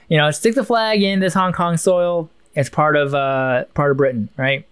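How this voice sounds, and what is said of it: Put-on Chinese accent. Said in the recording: “I'm doing the Chinese accent for a British person”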